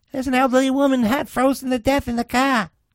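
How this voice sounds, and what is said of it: Put-on Boston accent. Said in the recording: “It's more of a Boston accent. ... I thought it was Scottish for a second.”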